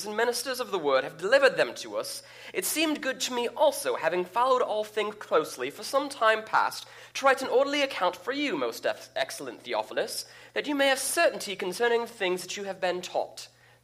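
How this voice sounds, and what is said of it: Put-on British accent, Archibald Asparagus. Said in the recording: “it makes me think of Archibald Asparagus from VeggieTales when I read it. And that's why I read it that way, because it just oozes British accent to me”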